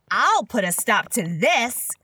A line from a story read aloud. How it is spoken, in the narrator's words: she said to herself and shouted out